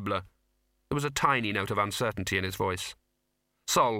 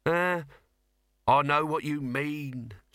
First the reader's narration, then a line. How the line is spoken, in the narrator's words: said Dibbler slowly